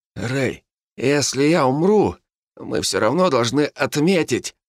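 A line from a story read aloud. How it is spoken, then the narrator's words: Weak hoarse wheeze. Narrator (Russian): прохрипел он, еле шевеля бескровными губами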